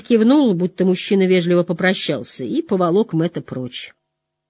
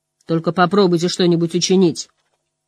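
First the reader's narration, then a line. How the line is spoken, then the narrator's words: Angry shopkeeper. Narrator (Russian): сердито заявил лавочник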